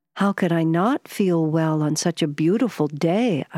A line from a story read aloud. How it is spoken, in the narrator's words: I replied